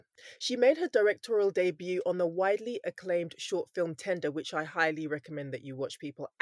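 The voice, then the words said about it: London accent. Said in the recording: “with this London accent”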